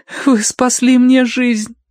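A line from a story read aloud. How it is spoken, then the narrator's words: Choked, sobbing. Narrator (Russian): выдавила Киврин сквозь душившие ее рыдания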